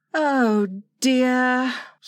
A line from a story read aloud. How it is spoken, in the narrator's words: sighed Wendy